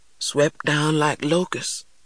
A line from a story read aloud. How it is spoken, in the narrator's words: he continued in a faraway voice